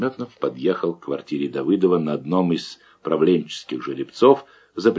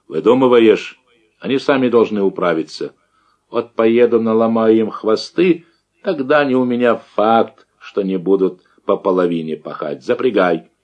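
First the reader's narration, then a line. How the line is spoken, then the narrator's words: Tentative suggestion. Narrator (Russian): Давыдов чертыхнулся, крикнул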